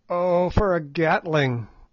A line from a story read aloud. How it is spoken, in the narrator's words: groaned Good